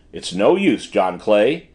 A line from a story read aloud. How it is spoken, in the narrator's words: said Holmes blandly